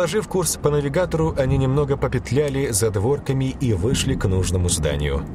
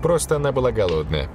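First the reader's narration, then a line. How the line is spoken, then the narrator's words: Laughing. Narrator (Russian): засмеялась Ольга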